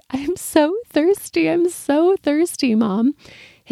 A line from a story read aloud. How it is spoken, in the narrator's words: poor son was sobbing